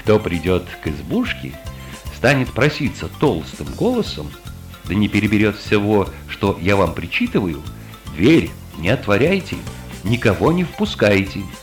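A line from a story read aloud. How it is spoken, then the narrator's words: Stern instruction. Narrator (Russian): Коза строго-настрого наказала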